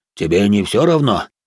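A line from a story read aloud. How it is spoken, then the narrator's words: Deep bass voice. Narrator (Russian): пробасил Грон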